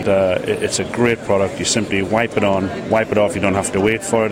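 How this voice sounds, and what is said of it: British accent. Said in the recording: “We're a British company, as you can probably tell from my accent.”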